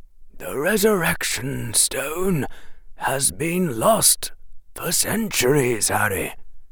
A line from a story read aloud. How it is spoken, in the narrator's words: the headmaster said quietly